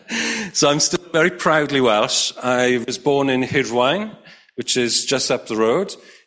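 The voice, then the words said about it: Welsh accent. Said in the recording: “hopefully you can still detect, I've lived in England for a long time ... But hopefully you can still detect a Welsh accent. ... Yeah.”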